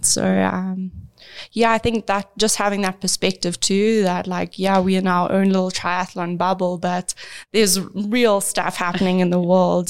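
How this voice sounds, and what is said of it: South African accent. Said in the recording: “from your accent, you grew up in South Africa. You're from South Africa.”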